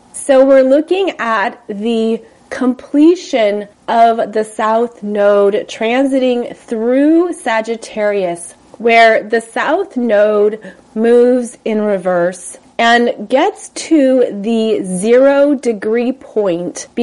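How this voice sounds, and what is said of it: Congested voice from a sinus cold. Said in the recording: “my voice sounds different because I was gifted with a little sinus cold ... I'm sure you hear it in my voice”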